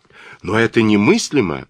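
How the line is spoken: Astonished exclamation. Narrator (Russian): воскликнул я, пораженный

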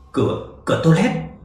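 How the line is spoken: Trembling voice. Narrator (Vietnamese): Lục Lục giọng run run

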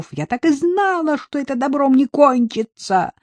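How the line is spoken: Hysterical laughter. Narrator (Russian): Она истерично захохотала

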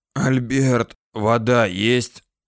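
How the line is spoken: Wheezing rasp. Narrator (Russian): прохрипел сосед

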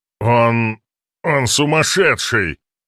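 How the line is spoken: Muttering. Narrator (Russian): бормотал он

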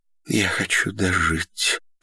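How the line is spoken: Whispering. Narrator (Russian): шептала

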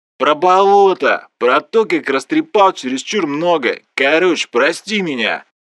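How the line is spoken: Booming. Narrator (Russian): Прогудел Влас

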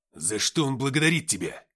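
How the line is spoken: Bark. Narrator (Russian): рявкнул Смирнов

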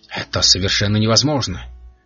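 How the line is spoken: Calm remark. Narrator (Russian): спокойно заметил Винтер

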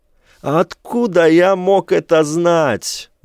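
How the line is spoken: Red-faced yelling. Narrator (Russian): завопил Джеймс багровея

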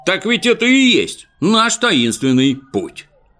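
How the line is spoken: Two voices shouting suddenly. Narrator (Russian): вдруг оба да как крикнут

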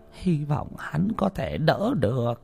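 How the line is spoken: Muttering. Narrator (Vietnamese): Ngài bà lẩm bẩm

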